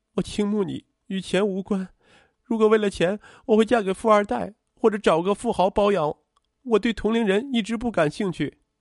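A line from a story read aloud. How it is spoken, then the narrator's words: Choked, sobbing voice. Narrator (Chinese): 邱淑媛一下子哭出了声，她哽咽着说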